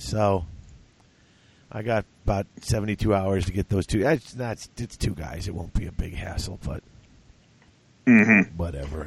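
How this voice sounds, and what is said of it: Rough, strained voice. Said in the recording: “As you can probably tell, I have a cold, or I had a cold, and now I'm over it, but my throat's going to be like this for a couple of days”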